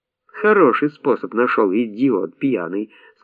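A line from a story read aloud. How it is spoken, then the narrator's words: Plain. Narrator (Russian): сказала Нюся Грета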